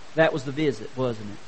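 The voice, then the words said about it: Low, quiet voice. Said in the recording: “said the little angel in a low voice.”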